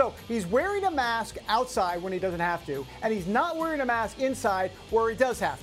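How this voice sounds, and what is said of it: Usual voice. Nothing is said of it.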